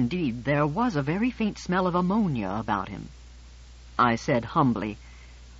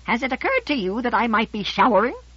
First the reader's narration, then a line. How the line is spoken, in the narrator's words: His 2-centimeter-tall body, in his piping voice he said